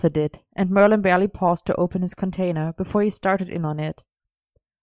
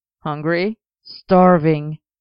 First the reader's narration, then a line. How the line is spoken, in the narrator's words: Merlin groaned around a mouthful of noodles